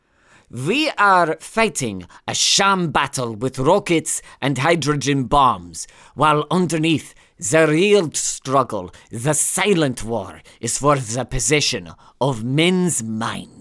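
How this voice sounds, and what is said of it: Bad put-on German accent, drifting Scottish. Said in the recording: “your German accent became a bit Scottish there ... It's a bad accent.”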